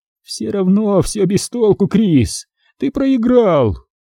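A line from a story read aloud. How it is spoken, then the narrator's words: Freak laughing. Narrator (Russian): уродец рассмеялся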